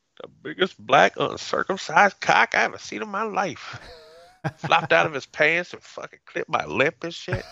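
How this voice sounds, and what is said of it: Put-on southern Atlanta drawl. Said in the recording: “She's still got that like southern, like Atlanta, like drawl accent.”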